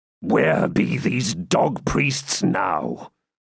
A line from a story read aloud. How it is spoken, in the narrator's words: growled the Baron